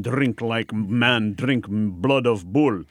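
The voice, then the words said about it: Put-on foreign accent. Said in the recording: “Nice accent”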